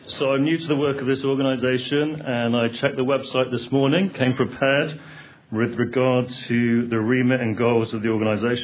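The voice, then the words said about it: Texas accent. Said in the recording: “You might like my Texas accent.”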